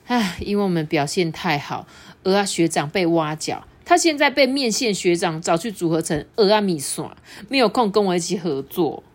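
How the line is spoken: Sighing. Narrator (Chinese): 蛋煎小子就叹了一口气

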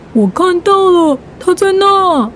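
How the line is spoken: Shouting. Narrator (Chinese): 他大叫一声

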